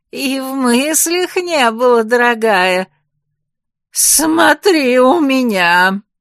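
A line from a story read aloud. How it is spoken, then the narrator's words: Menacing growl. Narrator (Russian): Грозно прорычала женщина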